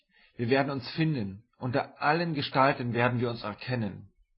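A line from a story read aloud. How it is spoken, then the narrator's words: Called out. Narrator (German): rief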